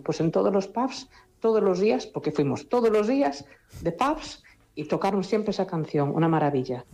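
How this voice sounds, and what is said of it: Galician Spanish accent. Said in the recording (Spanish): “acento, con ese precioso acento gallego”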